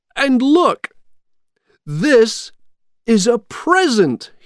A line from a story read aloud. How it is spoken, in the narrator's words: he shouted